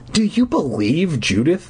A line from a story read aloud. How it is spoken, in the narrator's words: I asked bitterly